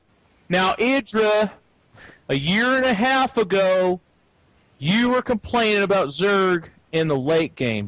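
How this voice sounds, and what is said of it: Imitates a talk show host's voice. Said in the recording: “my best Phil impression ... Dr. Phil”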